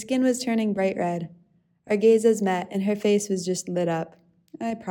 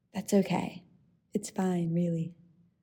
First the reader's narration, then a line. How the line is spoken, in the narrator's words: chuckled and murmured back as quietly as I could